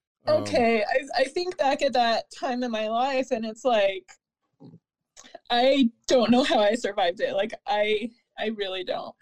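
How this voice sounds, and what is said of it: Emotional, choked-up voice. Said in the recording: “I'm so sorry, I'm getting emotional”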